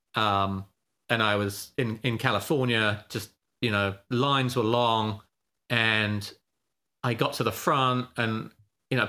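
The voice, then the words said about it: Noticeable non-Californian accent. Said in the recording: “people aren't expecting my accent. ... people can't understand my accent.”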